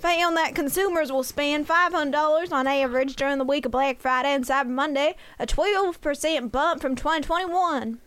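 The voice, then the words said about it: Put-on Southern accent. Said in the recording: “Oh, now we're going for the southern. ... Oh, now we're going to the southern accent.”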